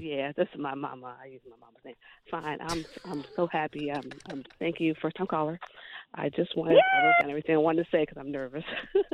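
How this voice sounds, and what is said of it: Whispering. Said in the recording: “She's whispering.”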